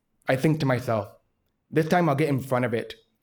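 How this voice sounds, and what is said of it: Deaf-sounding speech. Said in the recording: “I could tell by your voice ... the moment I open my mouth, people can tell that I'm deaf”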